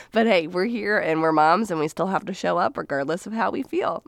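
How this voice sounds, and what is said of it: Voice sounds a little off. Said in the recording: “my voice sounds a little off, it's because we just got through the big Rona”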